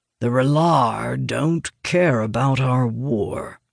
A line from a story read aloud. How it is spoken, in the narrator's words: Elias growls